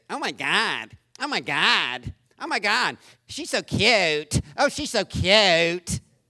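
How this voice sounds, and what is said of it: Fake nasal California accent. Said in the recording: “they fake this California accent because they heard on somebody on TV talking through their nose”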